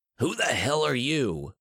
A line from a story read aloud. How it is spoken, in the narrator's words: Noiland spat